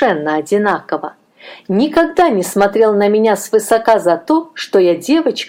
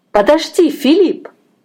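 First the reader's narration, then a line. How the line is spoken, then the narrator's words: Exclamation. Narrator (Russian): воскликнула я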